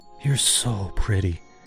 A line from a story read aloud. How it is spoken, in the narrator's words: he whispered